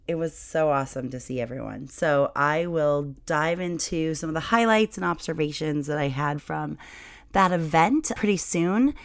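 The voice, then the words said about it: Rough, partly lost voice. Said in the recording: “my voice is a little bit different ... talking for about 18 hours a day, the dry air, and your voice will sound like this ... I lost my voice”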